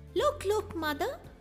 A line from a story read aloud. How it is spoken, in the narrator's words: Bambi exclaimed